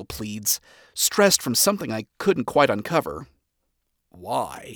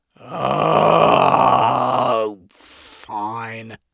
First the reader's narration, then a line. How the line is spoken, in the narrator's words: I groan